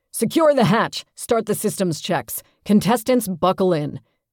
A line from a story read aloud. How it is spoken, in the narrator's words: Daniels barks